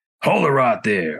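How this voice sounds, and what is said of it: Put-on Texan accent. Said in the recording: “his Texas sense of humor ... I'm sorry to do the accent”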